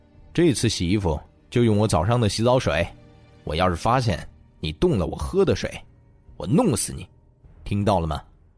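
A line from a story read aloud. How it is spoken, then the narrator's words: Cold, snorting. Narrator (Chinese): 这位心腹哼了哼，然后又冷声道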